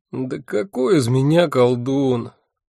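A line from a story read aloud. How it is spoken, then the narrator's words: Moaning. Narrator (Russian): простонал я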